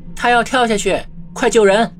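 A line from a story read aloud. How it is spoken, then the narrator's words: Sudden shout. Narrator (Chinese): 不知道是谁喊了一声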